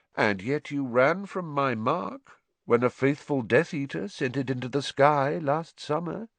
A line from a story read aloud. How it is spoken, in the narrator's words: said Voldemort lazily